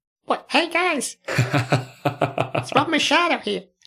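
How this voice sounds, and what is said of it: Mousy Rob Machado impression. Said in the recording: “quite good impression. ... That's how he talks, like a mouse.”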